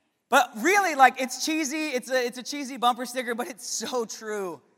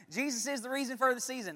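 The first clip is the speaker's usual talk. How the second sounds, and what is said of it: Put-on Southern US accent. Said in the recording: “I feel like it says it in a southern accent. That's how I read it. I read it in a southern accent.”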